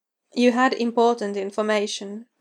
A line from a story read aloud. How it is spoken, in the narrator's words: Roy said